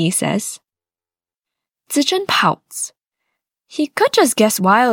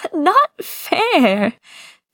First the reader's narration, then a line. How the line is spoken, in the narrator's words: Zichen complains between giggles